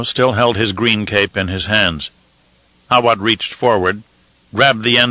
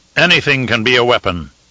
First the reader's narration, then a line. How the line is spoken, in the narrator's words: he said